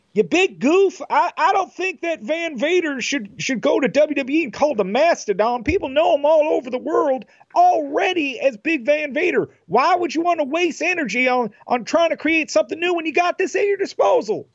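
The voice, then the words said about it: Imitates another person's voice. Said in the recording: “I try to do their voices ... a Jim Cornette impersonation ... That's really good.”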